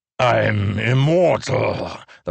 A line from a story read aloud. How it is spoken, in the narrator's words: the pursuer growled, but his rhythm had changed, not so confident